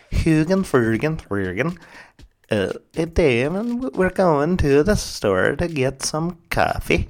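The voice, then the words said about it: Bad mock Norwegian accent. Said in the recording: “That is the worst accent. I used to be able to do kind of a Norwegian accent, but that's definitely like the Muppets Swedish accent.”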